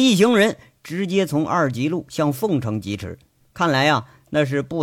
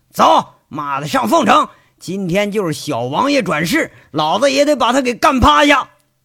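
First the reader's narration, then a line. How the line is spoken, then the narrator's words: Furious shout. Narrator (Chinese): 赵三刀火冒三丈，喊着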